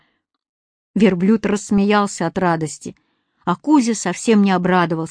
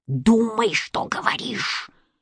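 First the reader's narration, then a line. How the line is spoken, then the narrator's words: Displeased hissing cat. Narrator (Russian): недовольно шипел кот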